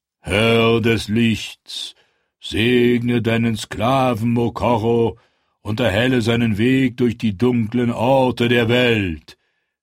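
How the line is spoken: Priest thundering. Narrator (German): donnerte der Priester

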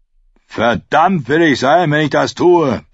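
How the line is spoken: Roaring. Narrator (German): brüllte Micken

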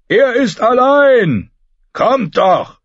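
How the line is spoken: Shouted reply. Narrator (German): schrie er zur Antwort

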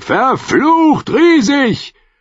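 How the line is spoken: Shouting into the night. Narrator (German): schrie jemand in die Nacht

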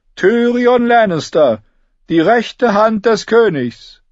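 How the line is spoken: Steward announcing loudly. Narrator (German): rief sein Haushofmeister

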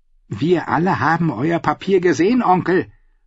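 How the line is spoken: Hissed. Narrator (German): fauchte Edwin Fry

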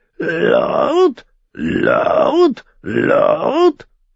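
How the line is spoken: Croaked by white raven. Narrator (German): krächzte der weiße Rabe

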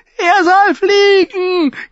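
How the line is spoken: Shrieking. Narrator (German): kreischte

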